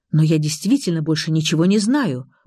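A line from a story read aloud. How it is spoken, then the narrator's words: Hurried. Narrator (Russian): торопливо произнес Павел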